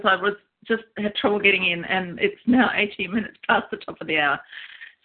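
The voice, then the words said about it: Laughing while speaking. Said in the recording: “hear the laughter in my voice,”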